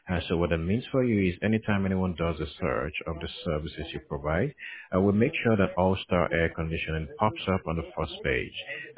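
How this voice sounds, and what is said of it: African accent. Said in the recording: “I'm actually originally from Africa... I'm sure you could sense the accent”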